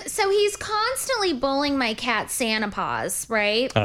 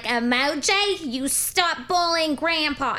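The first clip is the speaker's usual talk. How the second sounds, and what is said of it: Old Jewish lady accent. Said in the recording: “I only talk to Emoji in this accent ... like a Jewish old lady”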